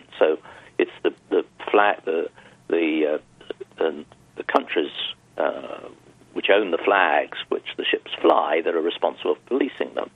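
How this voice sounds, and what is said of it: British European accent. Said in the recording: “you can gather from my accent, I come from Europe, well, the UK”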